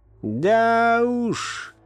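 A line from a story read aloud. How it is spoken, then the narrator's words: Wistful, mournful drawl. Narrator (Russian): тоскливо протянул один из них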